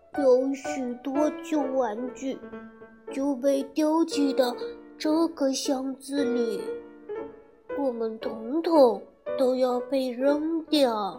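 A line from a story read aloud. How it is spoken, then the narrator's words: Sighing. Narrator (Chinese): 威利叹气道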